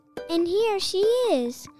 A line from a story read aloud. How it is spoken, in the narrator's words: squeaked he